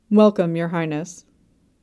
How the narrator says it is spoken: the old Marquis murmured

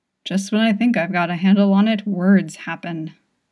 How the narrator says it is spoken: he hisses

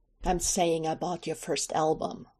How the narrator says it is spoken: Michael says, almost savagely

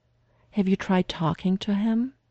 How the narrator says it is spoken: Lydia said gently

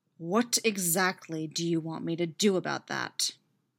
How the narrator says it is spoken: Derek growls back at him waspishly

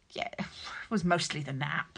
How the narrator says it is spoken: answered gruffly

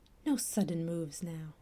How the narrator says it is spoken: Sean whispered out

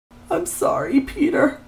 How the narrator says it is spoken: Rabbit sobbed, no more oil to cry

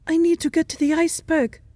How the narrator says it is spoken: Sherlock gasps

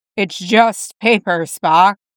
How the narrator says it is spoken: Jim chuckled

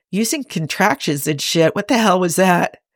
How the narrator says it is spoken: Cybok chuckles

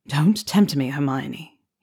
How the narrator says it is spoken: he murmured, his voice husky with both amusement and desire

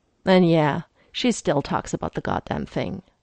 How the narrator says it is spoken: he sighed and said

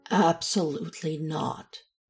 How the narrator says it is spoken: Alex said, firmly and as calmly as he could manage

